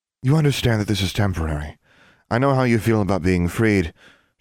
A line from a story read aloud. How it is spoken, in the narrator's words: she sighed